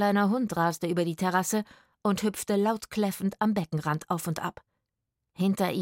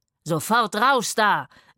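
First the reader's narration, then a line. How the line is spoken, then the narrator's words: Roared. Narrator (German): brüllte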